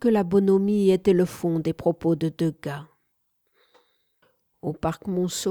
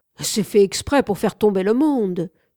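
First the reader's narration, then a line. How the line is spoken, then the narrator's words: Crying out. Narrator (French): s'écria quelqu'un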